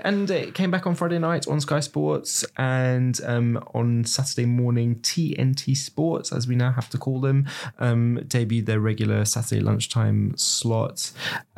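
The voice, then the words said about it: Manchester English accent. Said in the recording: “as you can tell from my accent, a very proud Manchester”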